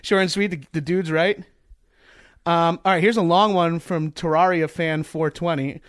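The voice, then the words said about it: Long Island accent. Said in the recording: “That stupid Strong Island accent. It's like nails on a chalkboard ... That's the Long Island accent.”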